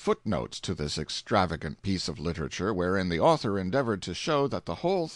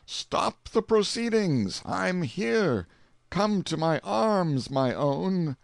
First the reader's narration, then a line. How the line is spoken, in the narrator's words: exclaimed